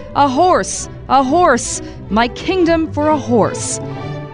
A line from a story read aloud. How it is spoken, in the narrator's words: In despair, he shouted